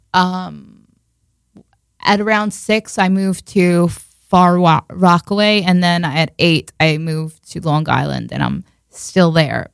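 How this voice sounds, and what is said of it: Heavy Long Island accent. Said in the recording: “I have a really heavy Long Island accent”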